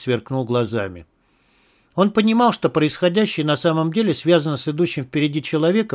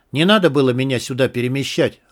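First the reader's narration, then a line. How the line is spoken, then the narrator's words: Snapped. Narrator (Russian): огрызнулся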